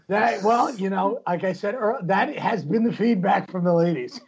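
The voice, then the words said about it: Hoarse, strained voice after losing it. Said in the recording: “I lost my voice. Hopefully, is it bearable ... I think it sounds quite sexy ... I am pretty much fucking shouting right now.”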